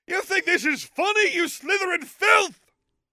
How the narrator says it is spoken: He yelled

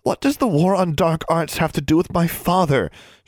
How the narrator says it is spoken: she asked, struggling to keep her voice from rising hysterically

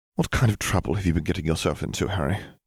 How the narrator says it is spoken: she sighed

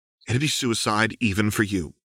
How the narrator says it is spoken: Lux said tightly

